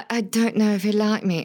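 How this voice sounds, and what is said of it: Put-on accent. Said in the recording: “I just went on an accent tour.”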